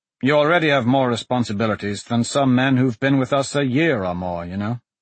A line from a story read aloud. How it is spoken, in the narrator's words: Larimore said in a normal tone, not caring who heard